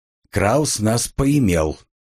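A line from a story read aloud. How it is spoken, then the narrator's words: Angry grumble. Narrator (Russian): сердито буркнул Клейнерт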